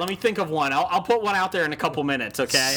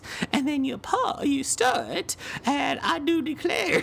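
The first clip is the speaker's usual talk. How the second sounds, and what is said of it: Put-on Southern Creole lady voice. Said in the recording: “Southern Creole Lady.”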